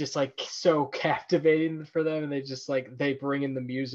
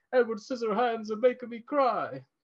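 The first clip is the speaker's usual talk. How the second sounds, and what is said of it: Put-on Italian accent. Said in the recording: “I don't know what like European accent they have, but I'm gonna do it, which may come off as may come out weird... what you did sounded Italian”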